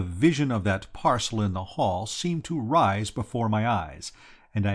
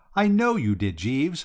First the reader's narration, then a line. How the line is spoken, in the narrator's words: I said, laughing